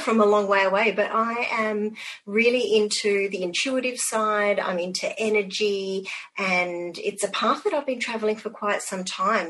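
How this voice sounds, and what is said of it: Australian accent. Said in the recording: “as you can tell by my accent, I'm all the way across the other side of the globe. I live in Perth in Western Australia.”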